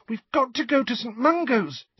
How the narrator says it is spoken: said Ginny urgently

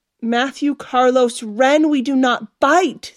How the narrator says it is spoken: Stephanie yelled

